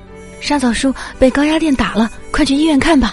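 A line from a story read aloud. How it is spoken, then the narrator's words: Breathless. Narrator (Chinese): 那人 喘着粗气告诉我说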